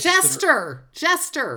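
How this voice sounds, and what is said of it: Screaming excitedly. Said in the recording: “I'm screaming”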